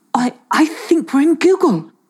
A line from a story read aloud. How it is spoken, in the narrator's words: he gasped